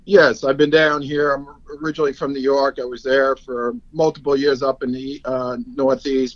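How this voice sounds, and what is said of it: Long Island New York accent. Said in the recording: “you haven't lost that Long Island accent”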